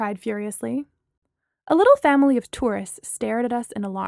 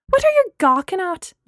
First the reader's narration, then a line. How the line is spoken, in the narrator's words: Gemma shouted at them